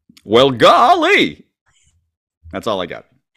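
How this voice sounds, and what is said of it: Imitates a folksy TV character. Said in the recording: “your Gomer Pyle impression ... I don't think it sounded like that”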